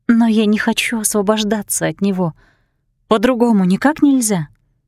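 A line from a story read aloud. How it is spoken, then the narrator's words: Ancient one sighing. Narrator (Russian): Древнейшая вздохнула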